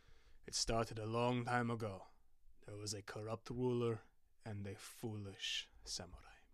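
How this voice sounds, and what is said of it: Deep, grave storytelling voice. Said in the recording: “took a deep voice”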